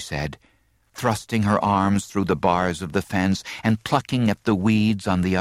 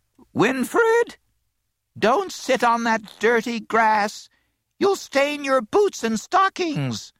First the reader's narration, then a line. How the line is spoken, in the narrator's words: a thin voice, her grandmother's, piped